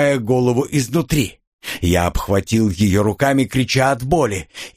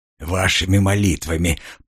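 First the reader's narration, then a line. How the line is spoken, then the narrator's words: Hoarse rasp. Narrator (Russian): прохрипел я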